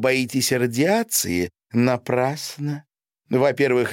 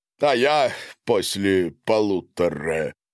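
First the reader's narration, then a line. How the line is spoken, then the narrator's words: Laughing. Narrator (Russian): засмеялся Гарин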